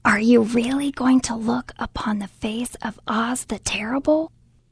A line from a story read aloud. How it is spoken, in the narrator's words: one of them whispered